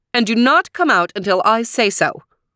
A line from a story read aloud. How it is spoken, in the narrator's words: barked the stepmother